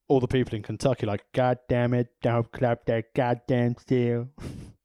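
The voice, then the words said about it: Put-on Kentucky accent. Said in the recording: “Is that how Kentuckians talk? ... I've only got three accents”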